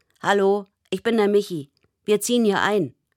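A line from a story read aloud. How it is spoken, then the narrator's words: Grinning call. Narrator (German): Er grinst, als er ruft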